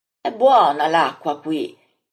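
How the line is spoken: Exclaimed. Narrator (Italian): esclama Andrea

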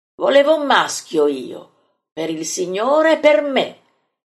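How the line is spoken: Resentful exclamation. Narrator (Italian): esclama risentito Filippo

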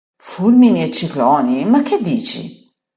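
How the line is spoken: Exclaimed. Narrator (Italian): esclama

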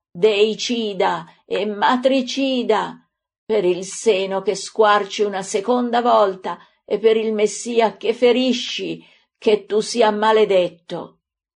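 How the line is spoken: Anguished scream. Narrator (Italian): la misera, colpita dal figlio con un calcio brutale all'inguine, stramazza gridando

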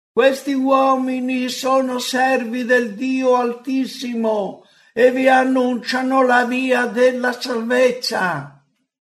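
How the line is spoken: Shouting. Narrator (Italian): gridando

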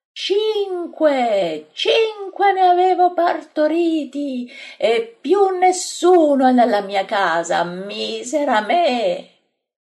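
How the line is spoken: Hysterical screaming. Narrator (Italian): urla istericamente

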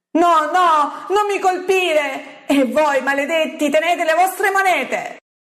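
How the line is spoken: Yelling. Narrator (Italian): L'uomo ... urlando

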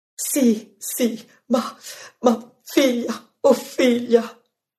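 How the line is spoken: Moaning. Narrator (Italian): Ella geme

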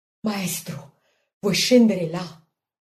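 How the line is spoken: Quiet question. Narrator (Italian): Marta chiede sottovoce

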